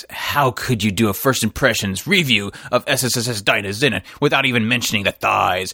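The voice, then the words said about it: Mock serious voice. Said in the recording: “fake serious voice”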